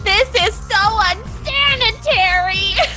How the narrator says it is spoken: E is just screaming

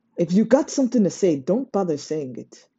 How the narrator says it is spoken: Sasha snapped

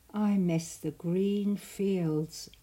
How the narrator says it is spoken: Oliver sighed

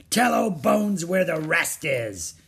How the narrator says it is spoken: he growled

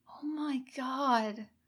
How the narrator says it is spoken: Kasumi muttered

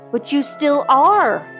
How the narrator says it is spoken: cried Helga, bewildered

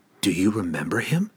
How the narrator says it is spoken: Cassius asked Glensather softly

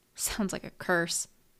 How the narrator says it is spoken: scoffed

